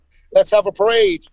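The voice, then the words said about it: Put-on American accent. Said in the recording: “excuse my American accent”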